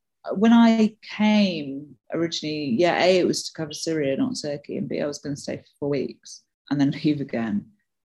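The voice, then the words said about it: British accent. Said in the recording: “you're originally from the UK, right? I mean, your accent”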